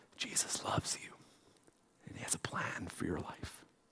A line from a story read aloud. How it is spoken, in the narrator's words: my friend whispered the words